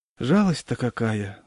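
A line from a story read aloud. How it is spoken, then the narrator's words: Sighing. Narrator (Russian): вздохнула жена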